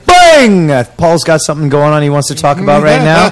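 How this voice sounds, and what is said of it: Imitates another person's voice. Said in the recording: “That was a wicked impression”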